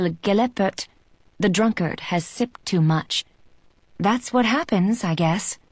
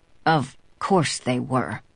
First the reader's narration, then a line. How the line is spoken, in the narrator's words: he mutters darkly